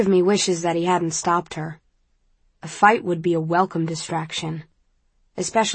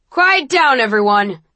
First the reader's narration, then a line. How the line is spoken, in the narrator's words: shouts Eric